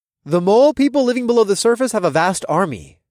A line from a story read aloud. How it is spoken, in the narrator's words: I said in a loud, clear voice